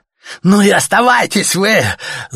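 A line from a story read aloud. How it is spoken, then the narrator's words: Yelling. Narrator (Russian): заорал им Артем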